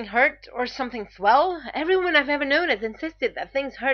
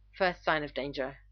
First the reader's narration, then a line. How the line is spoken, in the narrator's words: Rodney mutters darkly